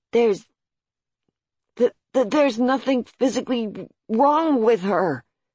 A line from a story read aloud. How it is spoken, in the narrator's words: He stammered